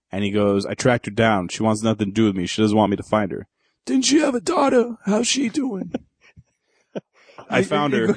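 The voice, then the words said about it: Brando Godfather impression, not Pacino. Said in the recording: “You're going into The Godfather. ... It's not Pacino at all anymore. ... I'm going to Brando so much. ... Brando.”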